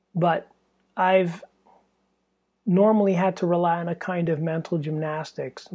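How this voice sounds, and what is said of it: Strained, fading voice. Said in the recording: “my voice, I'm losing my voice from, you know, it's really stuffy in here”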